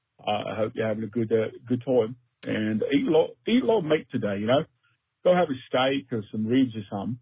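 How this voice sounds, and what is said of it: Put-on Cockney accent. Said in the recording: “So I'm thinking that's Cockney, right? I know there's a lot of different dialects in England”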